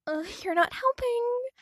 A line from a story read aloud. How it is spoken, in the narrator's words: Marinette groaned